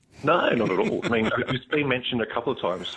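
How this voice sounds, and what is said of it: Australian accent that sounds somewhat English, plummy. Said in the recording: “I feel there's a bit of English in there. ... I think there's a bit of a plum in the mouth. ... a little bit of a red wine in the mouth there ... Apparently, they think I'm English every now and then. ... has an English accent”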